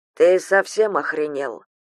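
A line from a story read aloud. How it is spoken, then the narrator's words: Dry question. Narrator (Russian): сухо спросили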